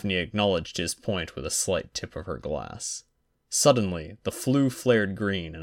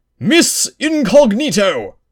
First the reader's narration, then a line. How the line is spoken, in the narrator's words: Harry snorted